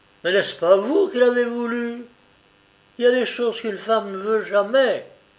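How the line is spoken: Exclaiming with realization. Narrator (French): Roger comprit qu'elle savait tout, s'écria

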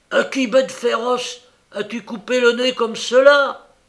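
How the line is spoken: Angry exclamation. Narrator (French): s'écria avec colère

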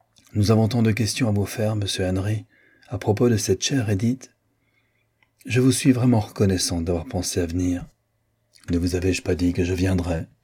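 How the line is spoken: Lower quiet tone. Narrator (French): répondit-il d'un ton plus bas que celui qu'avait pris Marguerite

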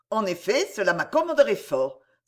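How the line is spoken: Exclaiming. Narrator (French): s'écria Lindemer

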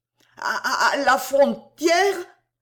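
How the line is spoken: Stammering. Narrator (French): balbutia-t-il

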